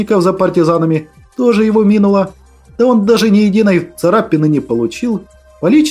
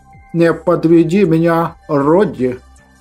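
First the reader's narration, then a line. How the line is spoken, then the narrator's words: Stern. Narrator (Russian): строго произнес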